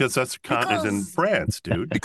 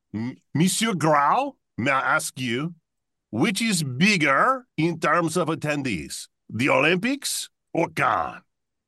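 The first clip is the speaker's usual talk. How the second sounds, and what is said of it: Exaggerated, bad fake French accent. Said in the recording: “I'm going to read in outrageous French accents ... why are you reading it in a horrible French accent? ... outrageous French accent”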